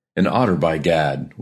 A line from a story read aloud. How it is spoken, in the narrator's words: we exclaimed in the same breath, laughing